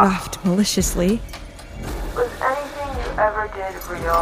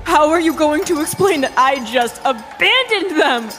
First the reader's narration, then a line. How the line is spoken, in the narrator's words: I screamed at the top of my lungs